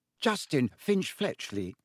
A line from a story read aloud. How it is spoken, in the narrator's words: he said brightly